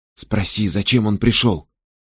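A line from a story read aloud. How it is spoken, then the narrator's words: Whisper. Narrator (Russian): прошептала Элинор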